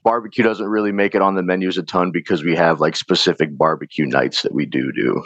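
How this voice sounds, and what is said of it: Slightly raspy voice. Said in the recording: “my voice is a little raspy.”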